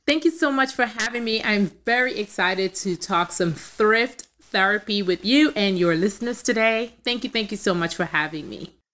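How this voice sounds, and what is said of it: Trinidadian accent. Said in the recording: “if you're hearing an accent, I am from Trinidad”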